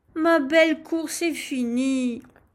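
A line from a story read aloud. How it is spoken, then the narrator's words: Sighing. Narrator (French): soupirait-elle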